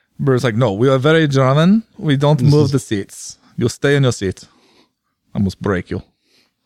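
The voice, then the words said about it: Put-on German accent, sounds Russian. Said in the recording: “Almost Russian. ... I don't have good delineation between my accents. No, I have three accents. ... It was close. ... Not quite. ... No, not even close.”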